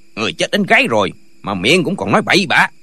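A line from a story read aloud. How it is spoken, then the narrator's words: Shout. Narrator (Vietnamese): gã quát lên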